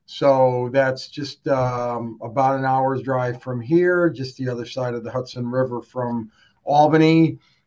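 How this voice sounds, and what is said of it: New York accent, downstate-sounding. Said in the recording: “I do believe we have a bit of a downstate accent”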